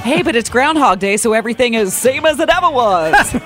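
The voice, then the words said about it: Imitates another person's voice. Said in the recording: “Now you're doing the voice. Or you're doing the David Byrne voice.”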